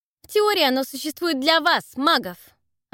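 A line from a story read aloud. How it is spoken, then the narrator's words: Snapping. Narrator (Russian): огрызнулась Елена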